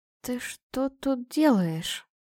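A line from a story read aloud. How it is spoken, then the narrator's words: Hoarse mutter. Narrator (Russian): пробормотала я сипло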